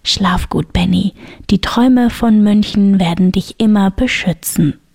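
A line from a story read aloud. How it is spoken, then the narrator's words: Whispering. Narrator (German): flüsterte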